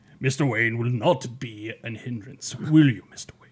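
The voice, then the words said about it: Imitates a comic villain's voice. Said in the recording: “my Hugo Strange impersonation”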